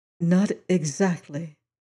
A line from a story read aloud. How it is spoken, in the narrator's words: said Madame Story softly